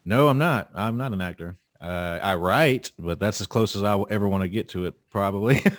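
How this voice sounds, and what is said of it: Mellifluous South Carolina Southern accent. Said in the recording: “I hear a wonderful accent... Such a beautiful, beautiful accent... it's so mellifluous and it's so almost British... especially the South Carolina accent... It's a beautiful Southern accent.”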